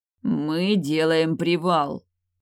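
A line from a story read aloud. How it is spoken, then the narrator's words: Through gritted teeth. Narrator (Russian): процедил Теодрик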